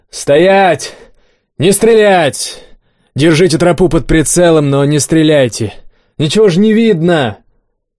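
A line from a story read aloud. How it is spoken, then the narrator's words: Booming yell. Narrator (Russian): Кабан зычно заорал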